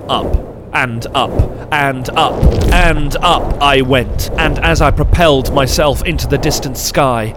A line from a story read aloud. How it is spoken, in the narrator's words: I bellowed with a terrible voice as a great army of trumpets